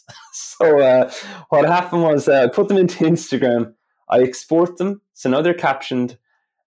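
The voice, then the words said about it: Irish accent. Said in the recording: “My Irish accent, so many caption software things were having problems”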